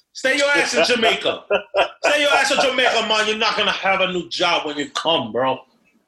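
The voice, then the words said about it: Poor put-on Jamaican accent. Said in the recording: “That's a horrible Jamaican accent”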